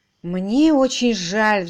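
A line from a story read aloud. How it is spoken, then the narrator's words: Sighing. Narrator (Russian): вздохнул Уимзи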